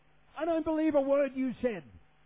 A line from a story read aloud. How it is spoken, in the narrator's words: someone yells, a lady yells